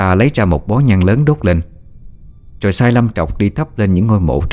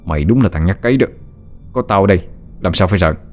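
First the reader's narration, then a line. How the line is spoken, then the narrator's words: Harsh emphatic voice. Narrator (Vietnamese): Hắn gằn giọng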